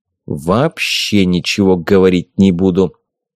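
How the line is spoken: Cold declaration. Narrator (Russian): холодным тоном заявил Талиен

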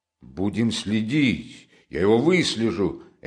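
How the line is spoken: Energetic shout. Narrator (Russian): энергически крикнул Разумихин

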